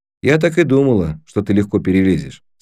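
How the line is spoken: Plain. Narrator (Russian): сказала она

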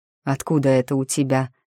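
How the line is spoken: Through gritted teeth. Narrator (Russian): процедил Герах сквозь зубы

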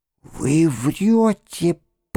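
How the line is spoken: Strangled wheeze. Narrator (Russian): просипела задушенным голосом

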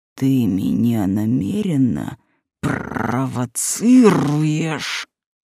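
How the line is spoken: Deep resonant growl. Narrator (Russian): Рыкнул, аж внутри что-то отозвалось

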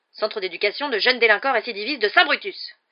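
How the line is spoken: Exclaiming. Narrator (French): s'écria l'oncle Vernon

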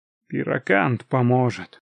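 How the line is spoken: Breathy exhale. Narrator (Russian): выдохнул Мьелдон, повторяя те же слова

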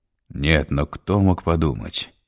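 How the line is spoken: Muttered into space. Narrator (Russian): Пробормотал он куда-то в пространство

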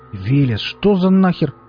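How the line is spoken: Growled suspiciously. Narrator (Russian): рыкнул Валдис, заподозривший неладное

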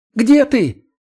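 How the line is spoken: Shrill, desperate cry. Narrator (Russian): Еще более тонким и визгливым получился этот крик отчаяния, но сейчас он не мог ничего с собой сделать

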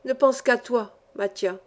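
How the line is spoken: Moved, emotional voice. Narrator (French): dis-je d'une voix émue

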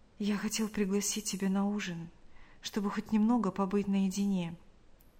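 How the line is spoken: Male whisper. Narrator (Russian): прошептал он

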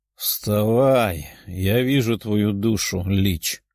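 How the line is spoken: Lazy demon voice. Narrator (Russian): ленивым голосом сказал демон

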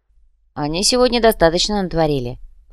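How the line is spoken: Grumbling. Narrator (Russian): пробурчал Клайв

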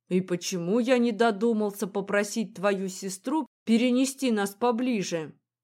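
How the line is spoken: Young man grumbling. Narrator (Russian): ворчал парень

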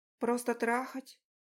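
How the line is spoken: Barely audible question. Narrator (Russian): еле слышно спросила

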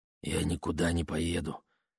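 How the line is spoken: Hoarse. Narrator (Russian): хрипло проговорила она

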